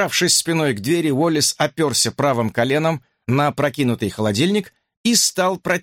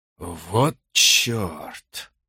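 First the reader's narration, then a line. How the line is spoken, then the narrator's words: Breathed exclamation. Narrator (Russian): выдохнул он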